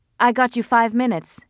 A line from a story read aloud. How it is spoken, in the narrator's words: he said